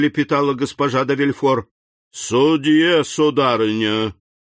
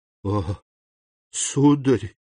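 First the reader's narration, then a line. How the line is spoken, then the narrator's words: Whisper. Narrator (Russian): прошептала она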